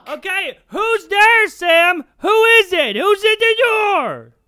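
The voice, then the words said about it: Yelling loudly. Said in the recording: “Could you stop yelling at him? ... You're yelling ... At kids now?”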